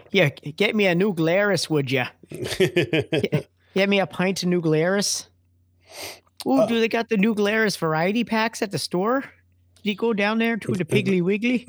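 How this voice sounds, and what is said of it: Put-on Midwestern American accent. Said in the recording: “That Midwestern accent, don't you know?”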